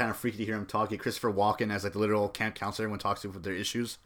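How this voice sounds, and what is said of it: Usual voice. Nothing is said of it.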